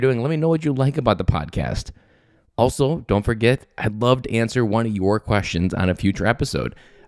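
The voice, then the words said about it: Scratchy, slightly sick voice. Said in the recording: “my voice sounds a little bit different today... my voice started to get scratchy, and I got a little bit sick”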